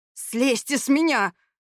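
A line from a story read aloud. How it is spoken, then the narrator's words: Hissing. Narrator (Russian): прошипел Стивен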